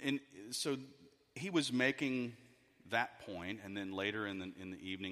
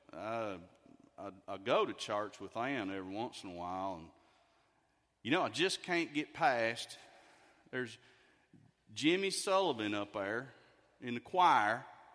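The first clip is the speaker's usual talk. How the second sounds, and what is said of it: East Texas accent impression. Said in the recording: “I'll do my best impersonation here... This is East Texas.”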